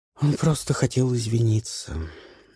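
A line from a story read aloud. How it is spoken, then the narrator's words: Breathed out. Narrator (Russian): выдохнула Люси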